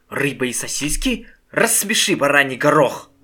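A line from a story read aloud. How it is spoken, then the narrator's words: Mother's very angry voice. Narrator (Russian): Голос матери звучал очень зло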